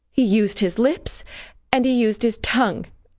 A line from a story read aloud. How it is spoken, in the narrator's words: I said, sobbing